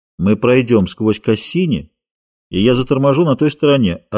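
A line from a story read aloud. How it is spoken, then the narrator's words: Calm reply. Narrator (Russian): ответил Кальдер также спокойно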